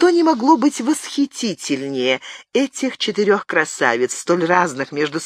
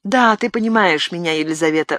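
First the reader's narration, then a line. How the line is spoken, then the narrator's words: Sighing. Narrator (Russian): вздохнула Мария Стюарт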